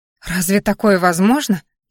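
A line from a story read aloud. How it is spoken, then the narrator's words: Frightened question. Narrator (Russian): испуганно спросила я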